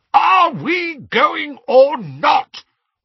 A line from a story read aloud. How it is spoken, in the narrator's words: roared Uncle Vernon